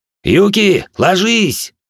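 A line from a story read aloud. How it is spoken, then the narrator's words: Yelling. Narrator (Russian): заорал я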